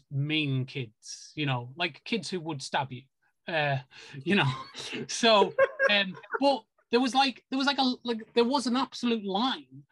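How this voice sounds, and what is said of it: British accent. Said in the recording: “your beautiful accent. ... Beautiful United Kingdom.”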